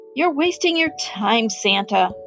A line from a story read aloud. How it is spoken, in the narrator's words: sighed another reindeer